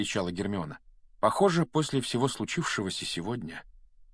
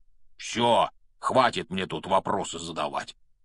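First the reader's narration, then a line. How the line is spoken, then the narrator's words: Grumble. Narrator (Russian): проворчал Хагрид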